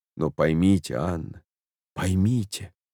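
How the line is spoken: Hurried undertone. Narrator (Russian): проговорил он вполголоса, торопясь

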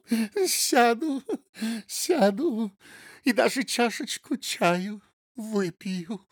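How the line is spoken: Hysterical laughing speech. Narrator (Russian): Марыськина истерически засмеялась и сказала

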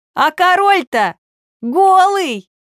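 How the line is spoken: Small boy shouting. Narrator (Russian): какой-то маленький мальчик крикнул

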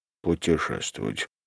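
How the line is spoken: Muttering. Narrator (Russian): пробормотал нотариус

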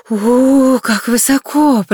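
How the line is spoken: Weak trembling female voice. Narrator (Russian): произнесла она ослабевшим и вздрагивающим голосом

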